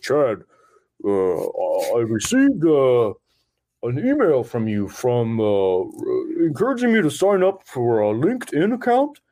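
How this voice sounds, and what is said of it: Imitates another person's voice. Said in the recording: “That was a great impression too, man. That's exactly how he sounds.”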